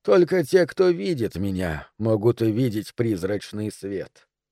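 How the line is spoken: Plain. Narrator (Russian): сказал он

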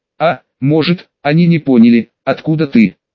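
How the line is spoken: Plain. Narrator (Russian): спросил атаман Гайдуков

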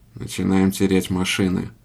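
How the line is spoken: Grim. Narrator (Russian): мрачно проговорил Кленов

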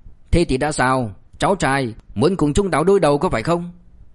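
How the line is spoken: Cold. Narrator (Vietnamese): Lưu Tiểu Bàn lạnh lùng nói

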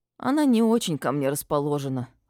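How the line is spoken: Sighing. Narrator (Russian): вздохнула я

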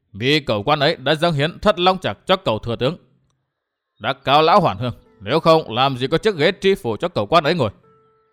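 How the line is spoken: Stern. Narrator (Vietnamese): Phí Thiên Cửu nghiêm nghị

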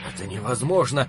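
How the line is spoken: Hoarse, wheezing. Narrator (Russian): прохрипел Холл

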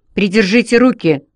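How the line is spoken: Angry. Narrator (Russian): зло сказал он МакГроу

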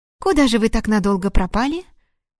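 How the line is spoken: Exaggeratedly cheerful interjection. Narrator (Russian): Преувеличенно весело вмешалась в разговор Харчук

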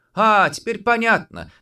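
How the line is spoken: Exclaimed. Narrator (Russian): воскликнула она

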